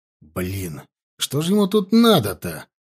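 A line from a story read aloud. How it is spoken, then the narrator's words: Irritated. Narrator (Russian): раздраженно сказал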